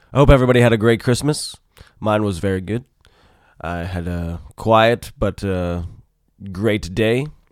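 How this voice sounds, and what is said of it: Husky, slightly sick-sounding voice. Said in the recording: “I'm a little under the weather, so if my voice sounds a little sexy, it's because I'm a little sick.”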